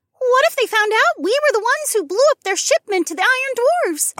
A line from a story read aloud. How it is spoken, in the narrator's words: Ilara squeaked